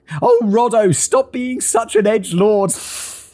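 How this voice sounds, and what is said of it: Put-on British accent. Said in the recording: “I don't know why I do a British accent.”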